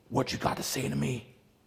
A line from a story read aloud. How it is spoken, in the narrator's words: she asked hoarsely